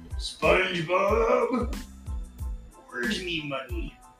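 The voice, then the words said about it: Mr. Krabs cartoon character voice. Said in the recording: “that was my Mr. Krabs impression... I suck at impressions”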